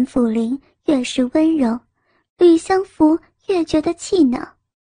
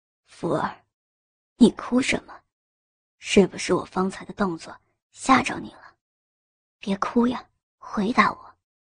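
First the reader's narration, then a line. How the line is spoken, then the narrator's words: Soft gentle question. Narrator (Chinese): 轻声问道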